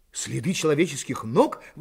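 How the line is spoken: Exclamation. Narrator (Russian): воскликнул Пенкроф

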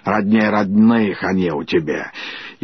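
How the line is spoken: Grumbling, reproachful or glad. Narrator (Russian): Давняя подруга ее Хрунычиха, осуждая или радуясь, ворчала

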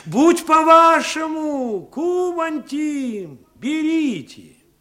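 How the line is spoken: Shouting after someone. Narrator (Russian): кричали вдогонку медленно удалявшемуся покупателю

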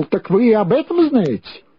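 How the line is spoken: Exclamation. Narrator (Russian): Он воскликнул

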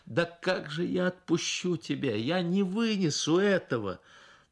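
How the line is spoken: Sobbing, pleading exclamation. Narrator (Russian): Потом сквозь рыдания с мольбой в голосе воскликнула

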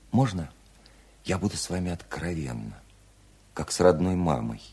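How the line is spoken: Gentle, affectionate question. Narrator (Russian): ласково спросила Вера

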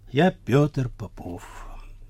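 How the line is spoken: Quiet. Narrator (Russian): он тихо сказал

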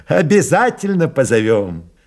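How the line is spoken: Laughing. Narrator (Russian): засмеялся майор

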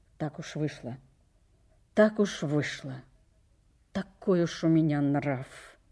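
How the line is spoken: Muttering. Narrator (Russian): Он пробормотал

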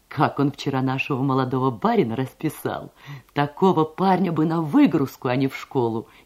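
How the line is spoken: Laughing speech. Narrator (Russian): смеясь говорила она

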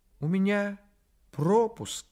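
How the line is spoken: Sad. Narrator (Russian): сказал крольчонок грустно

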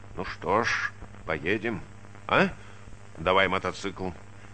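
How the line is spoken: Thoughtful. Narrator (Russian): задумчиво сказал своему товарищу, рыжему Палайтису

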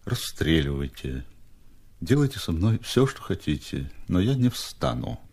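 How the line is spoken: Languid, barely audible. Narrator (Russian): Степа ответил бы томным, чуть слышным голосом

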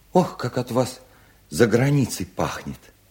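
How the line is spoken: Joyful. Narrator (Russian): сказал ему Вересова, радостно блестя глазами

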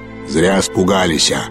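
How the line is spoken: Sudden deep bass voice. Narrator (Russian): пробасил неожиданно кто-то

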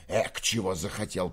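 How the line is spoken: Furious grumble. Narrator (Russian): проворчал он с яростью

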